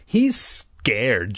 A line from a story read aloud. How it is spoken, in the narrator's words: Jay scoffed